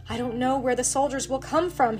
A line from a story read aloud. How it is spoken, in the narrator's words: cried